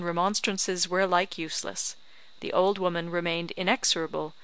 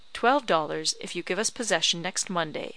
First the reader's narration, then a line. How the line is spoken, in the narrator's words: said my husband